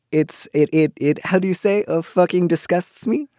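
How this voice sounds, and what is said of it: Bad put-on French accent. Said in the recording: “That was a very bad French accent.”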